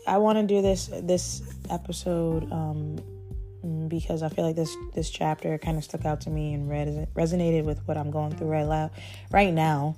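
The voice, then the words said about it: Weak, nearly lost voice. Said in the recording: “I'm still sick. Like, my voice is still gone.”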